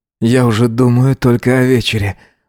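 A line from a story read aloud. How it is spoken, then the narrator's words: Sighing. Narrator (Russian): вздохнул он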